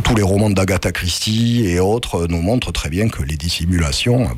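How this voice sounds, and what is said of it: Thick southern French accent. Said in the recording (French): “on se trimballe un accent méridional épais et difficile à dissimuler”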